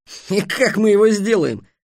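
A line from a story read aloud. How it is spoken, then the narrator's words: Snorted. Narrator (Russian): фыркнул Дерек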